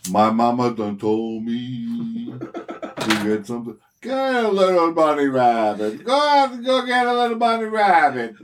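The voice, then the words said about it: Cartoon vulture character voice. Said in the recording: “that impersonation ... That's from Looney Tunes. ... it's a vulture.”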